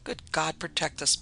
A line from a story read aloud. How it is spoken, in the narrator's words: muttered one